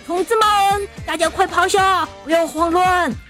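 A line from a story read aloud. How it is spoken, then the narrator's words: Shout. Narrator (Chinese): 队长喊道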